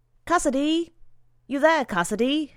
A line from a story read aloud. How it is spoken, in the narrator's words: He knocked loudly upon it and called out